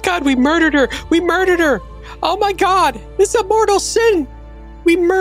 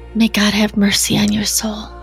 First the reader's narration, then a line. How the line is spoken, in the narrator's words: I'll lean down and whisper